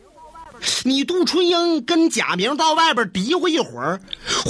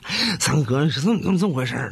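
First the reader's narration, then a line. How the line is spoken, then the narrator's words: Playful mumbling. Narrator (Chinese): 贾明啊在黄三太跟前嬉皮笑脸搁这嘀咕呢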